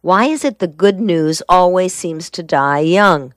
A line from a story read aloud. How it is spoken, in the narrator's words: she asked